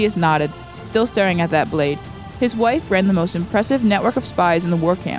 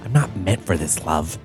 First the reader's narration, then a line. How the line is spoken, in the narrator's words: Sadeus whispered